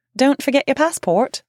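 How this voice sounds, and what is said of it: Deliberately bad put-on accent. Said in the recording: “God, terrible accent.”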